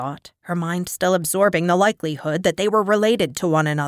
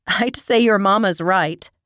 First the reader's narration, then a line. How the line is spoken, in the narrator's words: Aki responded, chuckling